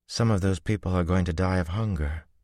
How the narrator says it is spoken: Min said sadly

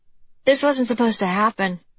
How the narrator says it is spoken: she blurted out

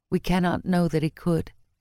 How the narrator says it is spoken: Ivan said quietly, heart hurting for him

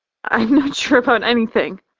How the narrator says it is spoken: I laugh, sniffling back tears

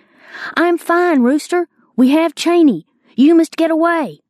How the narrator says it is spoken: I confirmed the news by shouting

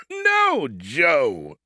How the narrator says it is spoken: he chuckled

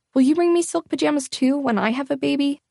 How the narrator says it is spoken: I blurted out

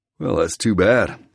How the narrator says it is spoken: I drawl

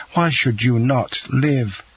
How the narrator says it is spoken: cried the young man

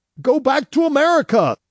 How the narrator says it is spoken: half of them shouted

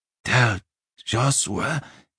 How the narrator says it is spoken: he panted

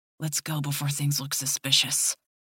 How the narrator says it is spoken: he whispers

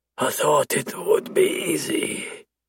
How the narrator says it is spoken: he whispers

